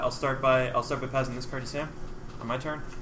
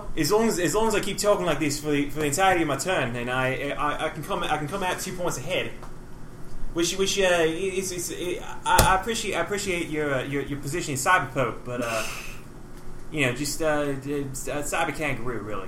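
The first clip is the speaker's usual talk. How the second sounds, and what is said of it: Outrageous put-on accent. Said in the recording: “outrageous accents”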